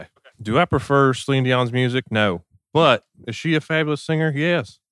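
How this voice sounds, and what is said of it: Funny put-on character voice. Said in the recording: “Bad Reviews in a Funny Voice ... my impression of this guy”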